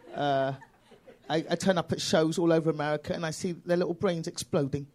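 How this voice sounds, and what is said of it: British accent. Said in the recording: “I am British, yes, I am British, I'm black and British... this accent confuses people”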